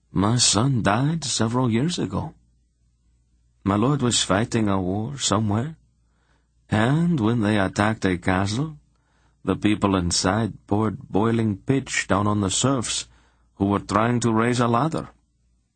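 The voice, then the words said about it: Flat, lifeless voice. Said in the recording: “in a dead voice”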